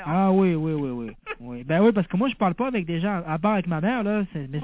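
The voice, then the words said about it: Mixed southern French and Québécois accent. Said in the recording (French): “tu as vraiment l'accent de là-bas, hein? ... T'as à moitié accent de l'accent que tu avais avant, du sud de la France, et puis ... maintenant l'accent canadien. ... Québécois, quoi.”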